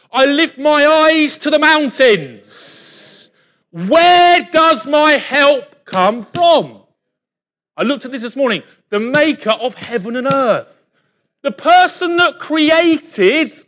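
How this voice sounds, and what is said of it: Shouting very loudly. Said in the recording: “I'm shouting very loud, aren't I?”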